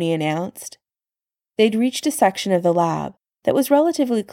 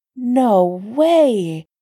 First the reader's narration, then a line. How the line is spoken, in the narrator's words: Sam exclaimed